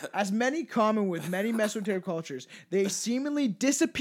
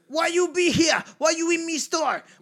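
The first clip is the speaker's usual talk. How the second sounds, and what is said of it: Put-on accent, sounding a little angry. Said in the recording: “Impersonation or accent, you gotta sound a little bit angry.”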